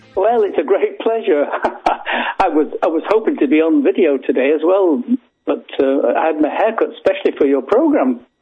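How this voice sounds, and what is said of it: British accent. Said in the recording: “He's got a British accent.”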